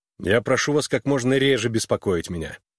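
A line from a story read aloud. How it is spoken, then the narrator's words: Irritated. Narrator (Russian): раздраженно проговорил он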